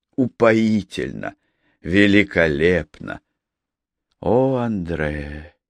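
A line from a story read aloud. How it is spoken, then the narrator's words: Barely audible whisper. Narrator (Russian): Чуть слышно прошептала Анжелика по-французски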